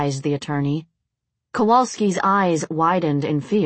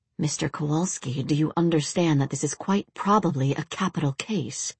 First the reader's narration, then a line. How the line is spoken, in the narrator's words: The defense attorney leaned in and hissed